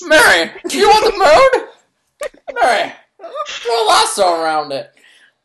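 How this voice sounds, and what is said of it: Imitates another person's voice. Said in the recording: “that particular impression, like the extended impression”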